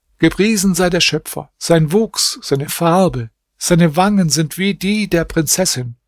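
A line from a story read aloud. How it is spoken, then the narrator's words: Called out. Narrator (German): rief er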